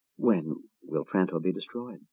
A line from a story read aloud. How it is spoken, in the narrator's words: Gaul faltered